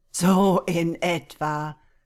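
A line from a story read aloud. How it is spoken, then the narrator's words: Laughing. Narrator (German): lachte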